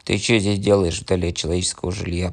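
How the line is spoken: Bear growling. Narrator (Russian): прорычал медведь

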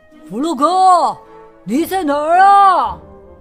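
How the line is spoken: Anxious shout. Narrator (Chinese): 老鼠着急的大喊道

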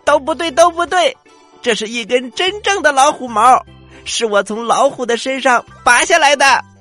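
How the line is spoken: Angry, loud shouting. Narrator (Chinese): 小螳螂更加生气了，他用劲儿的大声的喊着

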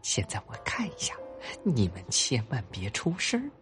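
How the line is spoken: Whisper. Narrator (Chinese): 狐狸先生悄声说

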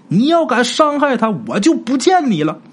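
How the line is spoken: Urgent shout. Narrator (Chinese): 陈氏赶紧又喊一声

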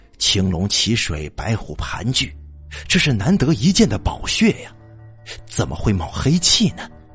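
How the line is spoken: Muttering to himself. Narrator (Chinese): 喃喃自语

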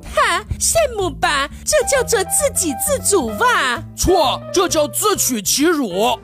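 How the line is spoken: Wife laughing. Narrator (Chinese): 妻子笑着说

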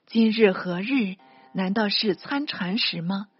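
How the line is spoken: Quiet sigh. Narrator (Chinese): 公祖窃叹道

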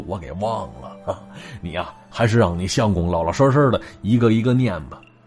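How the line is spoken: Smiling. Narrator (Chinese): 老者是笑了笑，说

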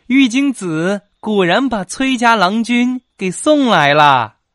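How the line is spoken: Smiling young girl. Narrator (Chinese): 一个婢女打扮的小姑娘…笑着说

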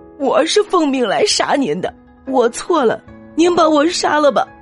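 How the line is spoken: Sobbing, tearful. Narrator (Chinese): 这个刺客被感动的嚎啕大哭，流着泪和刘备说

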